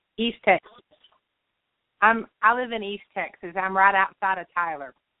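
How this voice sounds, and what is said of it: Texas twang accent. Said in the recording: “you do have that, as I said, that Texas twang.”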